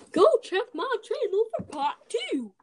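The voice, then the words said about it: A put-on voice. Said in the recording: “I don't know why I just did that voice.”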